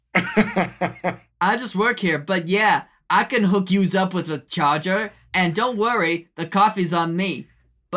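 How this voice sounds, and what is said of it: A charming regional accent. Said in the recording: “Your accent is so charming.”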